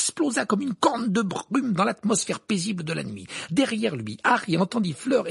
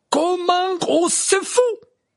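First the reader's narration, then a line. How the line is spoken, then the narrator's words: Exclaiming. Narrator (French): s'écria Madame Maxime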